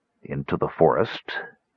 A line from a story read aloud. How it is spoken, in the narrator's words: He asked in a hopeless voice